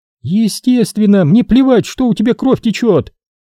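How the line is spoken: Yelling. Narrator (Russian): орала Скарли

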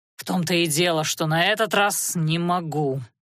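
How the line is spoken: Through gritted teeth. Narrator (Russian): процедил Анхайлик

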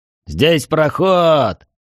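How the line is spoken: Joyful exclamation. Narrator (Russian): радостно воскликнул Трид

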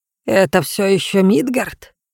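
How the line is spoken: Quiet question. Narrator (Russian): негромко спросила баба-яга

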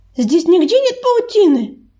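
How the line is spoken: Loud shout to all. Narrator (Russian): громко крикнула она, обращаясь ко всем узникам

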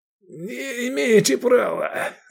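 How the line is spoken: Hateful hoarse wheeze. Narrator (Russian): захрипел возница, с ненавистью

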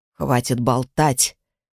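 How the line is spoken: Good-natured grumble. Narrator (Russian): добродушно проворчал наставник

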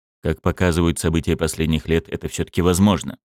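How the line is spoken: Gentle, soft. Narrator (Russian): мягко сказал директор ЦРУ

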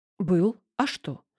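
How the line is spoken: Plain. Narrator (Russian): ответил Минкин

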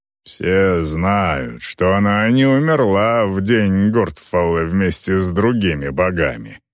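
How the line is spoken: Grumbled. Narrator (Russian): проворчал Грэнд

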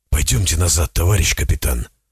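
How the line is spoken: Whispered. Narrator (Russian): прошептал Зотов

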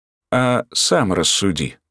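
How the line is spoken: Calm. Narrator (Russian): спокойно продолжил Ратманов

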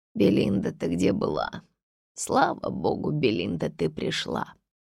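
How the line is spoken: Asking with a deep sigh. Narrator (Russian): снова глубоко вздохнула и спросила

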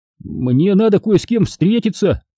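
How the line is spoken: Shout. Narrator (Russian): крикнул

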